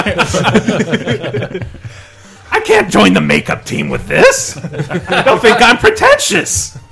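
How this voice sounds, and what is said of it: Exaggerated nerdy character voice. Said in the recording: “Adopted your nerd voice.”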